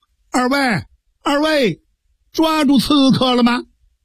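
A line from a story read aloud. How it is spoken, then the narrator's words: Distant loud shout. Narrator (Chinese): 沈仲元在树林子里边又高声呼喊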